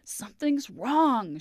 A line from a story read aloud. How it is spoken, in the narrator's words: gasped